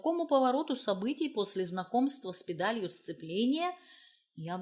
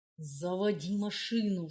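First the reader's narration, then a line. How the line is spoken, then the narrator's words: Hissing. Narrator (Russian): шипел он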